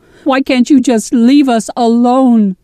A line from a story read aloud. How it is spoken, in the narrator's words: sobbing